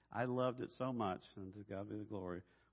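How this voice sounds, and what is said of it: Southern Arkansas drawl. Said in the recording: “a southern accent ... my Arkansas drawl”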